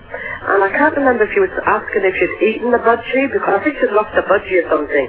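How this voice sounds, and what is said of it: Speaks with a noticeable accent. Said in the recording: “Sweet accent there.”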